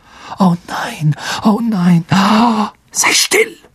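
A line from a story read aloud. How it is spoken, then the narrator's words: Hissed. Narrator (German): zischte Harry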